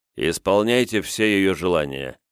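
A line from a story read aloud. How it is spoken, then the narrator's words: Stern command. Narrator (Russian): строго-настрого наказал Кунигас слугам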